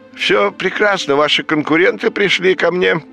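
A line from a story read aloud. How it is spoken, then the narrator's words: Cheerful. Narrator (Russian): бодро сообщил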